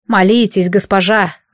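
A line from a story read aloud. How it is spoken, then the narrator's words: Sigh. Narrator (Russian): вздохнул лекарь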